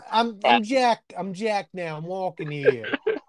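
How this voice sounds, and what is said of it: Put-on Brooklyn accent. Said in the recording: “I believe it is like a Brooklyn cat.”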